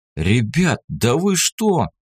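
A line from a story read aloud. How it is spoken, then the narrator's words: Frightened outburst. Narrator (Russian): прорвало того испуганно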